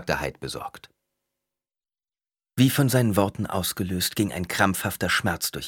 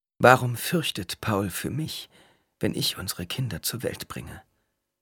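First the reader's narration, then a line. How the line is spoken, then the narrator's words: Weak voice after pain. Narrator (German): Als der Schmerz verebbt war, fragte sie mit schwacher Stimme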